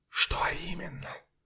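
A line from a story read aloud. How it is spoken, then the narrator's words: Whispered. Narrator (Russian): прошептал кто-то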